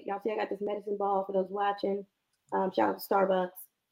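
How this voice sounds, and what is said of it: Croaky, raspy sick voice. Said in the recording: “excuse my voice... My voice gonna sound like this... it's better. It was Elmo. So it's now like Kermit the Frog.”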